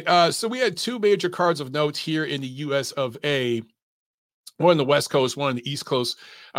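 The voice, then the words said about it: Strained, failing voice. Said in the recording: “I'm losing my voice. ... I'm running on fumes, guys.”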